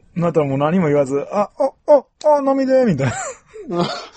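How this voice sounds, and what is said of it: Imitates another person's voice. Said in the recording (Japanese): “梅ちゃんの ものまね”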